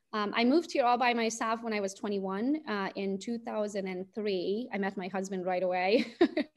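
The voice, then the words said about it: Hungarian accent. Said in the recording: “as you can hear it from my accent, I was not born in the US. I was born in Romania, Transylvania. I'm Hungarian by nationality.”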